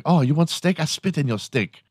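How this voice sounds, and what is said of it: Put-on Asian accent. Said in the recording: “make that accent? I mean, they did all have accents.”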